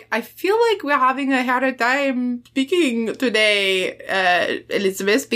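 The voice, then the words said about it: Heavy put-on French accent. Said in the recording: “I'm trying to do his accent heavier than Renee. So I don't know if that's coming across”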